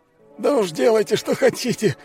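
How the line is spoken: Wounded man's groan. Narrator (Russian): простонал раненый

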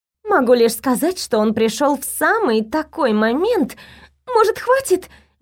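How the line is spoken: Pleading. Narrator (Russian): взмолилась я

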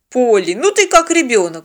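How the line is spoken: Snorted. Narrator (Russian): фыркнул Теодор

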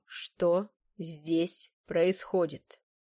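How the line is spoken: Clipped, emphatic. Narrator (Russian): отчеканил он

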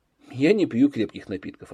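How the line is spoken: Plain. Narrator (Russian): ответил Данилов

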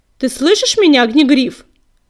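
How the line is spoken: Barked. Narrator (Russian): рявкнула синяя звезда

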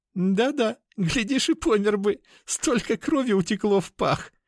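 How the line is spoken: Laughing woman. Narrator (Russian): Рассмеялась темненькая

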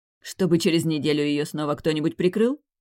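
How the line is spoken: Spat angrily. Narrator (Russian): Зло выплюнула я

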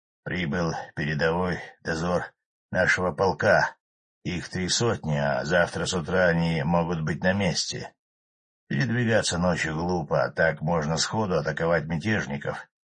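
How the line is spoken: Hoarse explaining. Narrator (Russian): хриплым голосом объяснил Денисов

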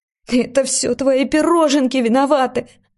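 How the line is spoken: Sobbing. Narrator (Russian): рыдала

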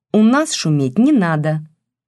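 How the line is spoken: Stern. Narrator (Russian): строго сказала она

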